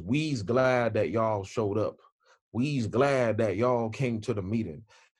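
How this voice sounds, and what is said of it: Mock Southern American accent. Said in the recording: “put on this Southern American accent, started speaking Ebonics”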